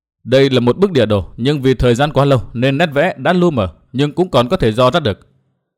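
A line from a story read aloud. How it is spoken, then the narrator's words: Stern voice. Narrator (Vietnamese): Tuyết Liên nghiêm giọng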